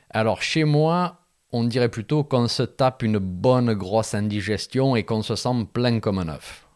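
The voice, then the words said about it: Slight put-on regional accent. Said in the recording (French): “Je rajoute un petit accent quand même.”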